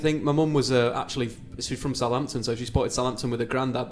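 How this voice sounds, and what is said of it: Regional English accent. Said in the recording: “you can tell from ... accent how he came to support.”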